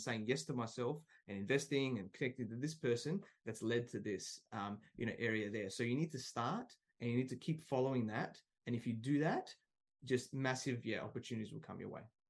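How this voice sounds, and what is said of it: Speaks with a distinct accent. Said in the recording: “it's like mine, but with a cooler accent”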